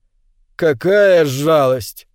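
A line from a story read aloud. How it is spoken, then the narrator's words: Drawled. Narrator (Russian): протянула охотница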